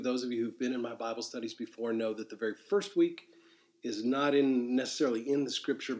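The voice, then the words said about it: Congested, sick-sounding voice. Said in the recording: “apologize for my voice. I've been struggling with a sinus infection”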